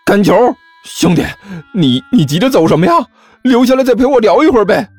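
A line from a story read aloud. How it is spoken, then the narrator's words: Loud shout. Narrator (Chinese): 大声喊道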